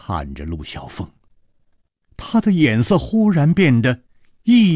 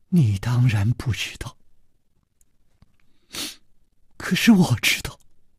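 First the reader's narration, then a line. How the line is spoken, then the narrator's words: Soft sigh. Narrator (Chinese): 公平轻轻地叹了一口气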